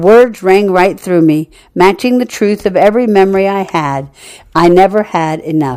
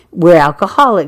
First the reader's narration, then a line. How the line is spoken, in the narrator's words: she replied